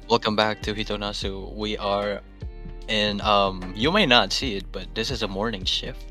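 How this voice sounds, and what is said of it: Groggy morning voice. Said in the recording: “we're both in our morning voices right now”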